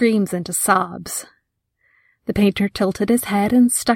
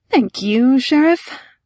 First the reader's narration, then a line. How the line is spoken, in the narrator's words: he sighed